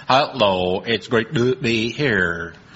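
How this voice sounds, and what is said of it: Robotic synthesized American-accented voice. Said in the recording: “his Dalek voice ... he's always had that American accent”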